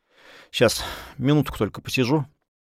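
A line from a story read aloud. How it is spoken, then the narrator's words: Muttering. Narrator (Russian): пробормотал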